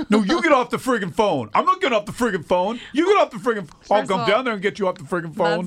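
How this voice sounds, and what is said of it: Imitates another person's voice. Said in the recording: “That's like the best impression of him”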